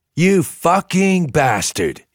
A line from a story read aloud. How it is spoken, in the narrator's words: roared